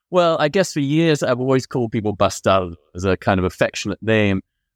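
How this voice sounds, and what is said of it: British English accent. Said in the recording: “as you could have guessed by his accent, you grew up partly in the UK”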